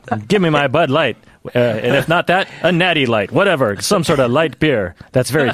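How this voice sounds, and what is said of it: Imitates another person's voice. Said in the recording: “a great impression... Really good. That's very good.”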